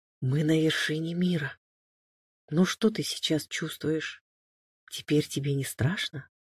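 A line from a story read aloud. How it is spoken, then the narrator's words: Whisper. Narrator (Russian): прошептал Алекс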